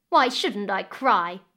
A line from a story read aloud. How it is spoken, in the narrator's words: the stepdaughter snapped back